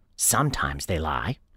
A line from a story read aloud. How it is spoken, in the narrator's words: Liz grumbles